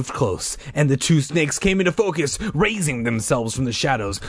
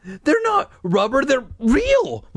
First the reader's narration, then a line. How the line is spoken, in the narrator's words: Mike insisted, his voice trembling